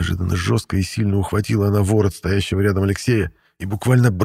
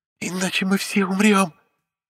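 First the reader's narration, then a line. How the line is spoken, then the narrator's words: Hoarse rasp. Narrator (Russian): прохрипела Саналея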